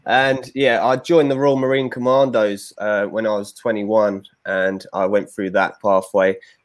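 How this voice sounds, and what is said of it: London English accent. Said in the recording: “I'm obviously English. You can tell by my accent from London.”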